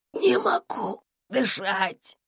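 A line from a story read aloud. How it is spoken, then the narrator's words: Wheezing rasp. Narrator (Russian): прохрипел он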